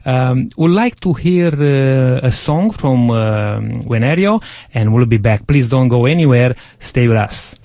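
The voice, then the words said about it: Strong Romanian accent, broken English. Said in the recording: “I speak very broken English with a very strong Romanian accent”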